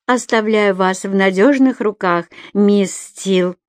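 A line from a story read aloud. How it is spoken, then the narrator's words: Hissed through teeth, smiling. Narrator (Russian): Сквозь зубы процедила Джоан, но улыбка с ее лица не сошла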